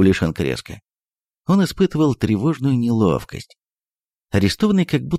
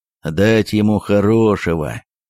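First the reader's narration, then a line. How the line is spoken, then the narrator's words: Slow, gloomy grumble. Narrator (Russian): медленно и мрачно проворчал городовой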